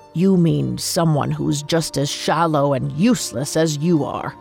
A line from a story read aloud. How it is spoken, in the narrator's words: Ezine snorted, saying